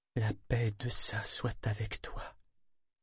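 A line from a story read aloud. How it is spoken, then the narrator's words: Strained murmur. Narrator (French): réussit à murmurer d'une voix tendue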